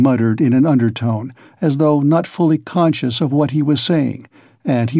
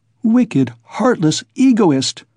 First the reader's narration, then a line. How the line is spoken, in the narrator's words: cried Dounia